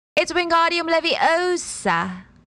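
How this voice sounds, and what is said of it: Put-on English accent. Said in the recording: “I promised I would do an accent ... her English accent”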